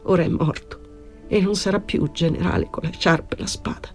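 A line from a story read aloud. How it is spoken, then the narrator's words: Corporal murmuring tearfully. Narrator (Italian): Con voce di pianto il caporale mormorò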